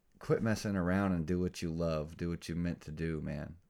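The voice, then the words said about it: Flat, monotone tired delivery. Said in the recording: “I know I'm monotone, but it's 1 in the morning. I've had a long weekend.”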